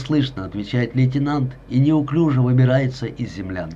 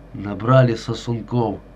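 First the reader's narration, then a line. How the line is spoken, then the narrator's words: Muttering, disdainful. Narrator (Russian): бормочет Кравцов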